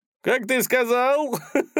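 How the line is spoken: Short guffaw. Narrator (Russian): хохотнул варяг

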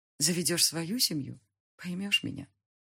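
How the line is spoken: Mother sighing. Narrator (Russian): вздохнула мама

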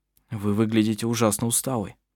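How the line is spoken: Concerned voice. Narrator (Russian): озабоченным голосом сказал он

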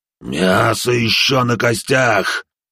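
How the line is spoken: Bone-eater growling in reply. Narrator (Russian): прорычал в ответ пожиратель костей

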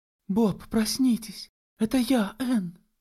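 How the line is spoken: Naive pleading girl. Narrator (Russian): с простодушной мольбой произнесла девушка

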